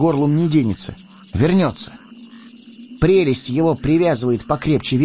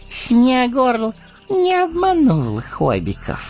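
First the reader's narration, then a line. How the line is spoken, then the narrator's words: Cooed contentedly. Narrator (Russian): довольным голосом проворковал он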